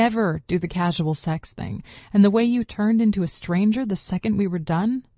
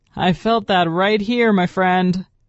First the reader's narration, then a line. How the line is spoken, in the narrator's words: he called out to Damien